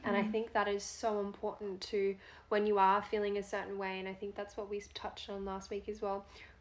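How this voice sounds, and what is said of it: Hoarse, failing voice. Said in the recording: “I feel like I'm losing my voice all of a sudden. It was not like this 5 minutes ago.”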